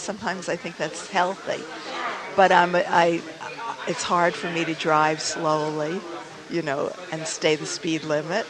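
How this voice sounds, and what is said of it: Heavy New York accent. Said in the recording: “Now, you're a New Yorker. ... I'm sure I have this heavy accent. It identifies me.”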